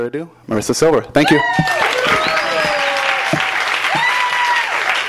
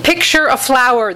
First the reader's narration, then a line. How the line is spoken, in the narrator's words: the midwife yells, her voice reaching the baby as warped and concave sounds